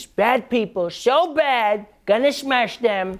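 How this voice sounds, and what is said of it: Childlike imitation of another person's voice. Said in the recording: “talks like a toddler”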